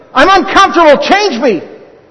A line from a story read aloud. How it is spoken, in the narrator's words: another scream